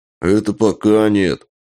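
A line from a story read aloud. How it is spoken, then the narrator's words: Deep grumble, bearded man. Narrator (Russian): пробурчал, как в бочку, бородач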